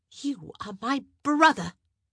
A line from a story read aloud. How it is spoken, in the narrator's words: she spat out